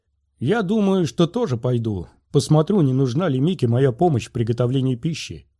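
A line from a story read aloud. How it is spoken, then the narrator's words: Sharp. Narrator (Russian): резко сказал Оби-Ван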